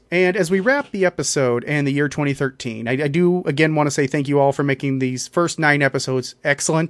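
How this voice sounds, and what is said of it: Strained, failing voice, slightly fast. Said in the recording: “my voice is starting to give out on us ... causing me to talk a little bit faster ... before my voice completely goes”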